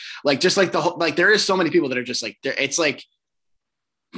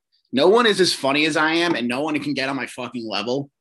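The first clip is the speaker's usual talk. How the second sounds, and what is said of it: Sarcastic boastful tone. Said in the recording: “I'm obviously being sarcastic”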